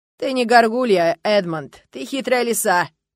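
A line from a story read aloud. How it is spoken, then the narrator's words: Mocking. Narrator (Russian): насмешливо произнес Кастер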